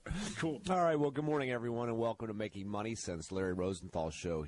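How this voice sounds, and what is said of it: Hoarse, deep, froggy voice. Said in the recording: “you sound a little bit like you've uh, got a little bit of a frog going on this morning ... A little something going on in the throat ... You sound like sort of uh, one of those deep uh, radio announcer guys”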